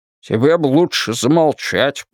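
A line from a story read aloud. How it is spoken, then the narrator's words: Muttered. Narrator (Russian): пробурчал Уитни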